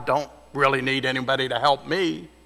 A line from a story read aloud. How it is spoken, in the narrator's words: he growled